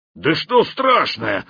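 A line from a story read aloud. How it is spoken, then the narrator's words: Growled. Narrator (Russian): рыкнул Хохолок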